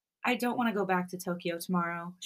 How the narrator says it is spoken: she mutters, sniffling back her tears

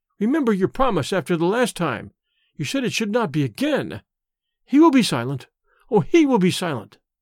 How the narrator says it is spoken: she cried in English

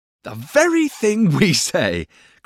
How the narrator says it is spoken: cried Traddles

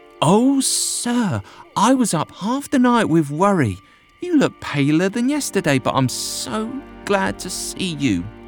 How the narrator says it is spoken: She exclaimed

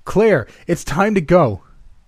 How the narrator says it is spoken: screamed

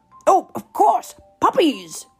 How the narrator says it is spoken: he cried

